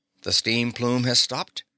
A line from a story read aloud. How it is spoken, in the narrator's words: asked the professor anxiously